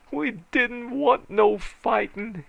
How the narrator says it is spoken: he bawled

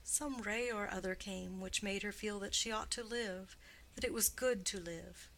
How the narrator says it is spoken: he answered quietly

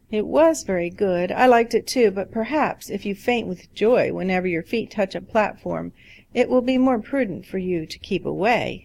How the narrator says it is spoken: laughed

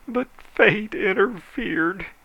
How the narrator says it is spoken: he moaned

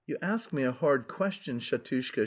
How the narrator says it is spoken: she answered dreamily, without a trace of surprise

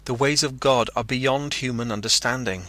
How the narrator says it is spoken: cried

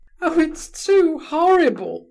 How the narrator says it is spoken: cried poor Kolia, sobbing with shame and annoyance

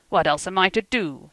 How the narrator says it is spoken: he cried hotly, in Bohemian

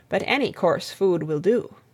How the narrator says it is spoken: said Alec gravely

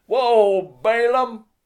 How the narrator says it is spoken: He shouted

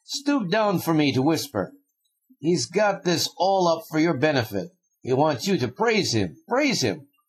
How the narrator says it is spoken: cried Fyodor Pavlovich suddenly

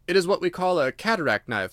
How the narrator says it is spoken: said I

